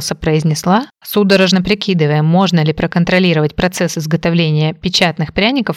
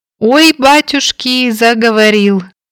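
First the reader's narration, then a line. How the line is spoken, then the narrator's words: Mock-frightened cry. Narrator (Russian): скрикнула притворно испуганным голосом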